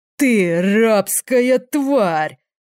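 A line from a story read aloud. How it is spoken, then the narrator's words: Demon roaring. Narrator (Russian): взревел демон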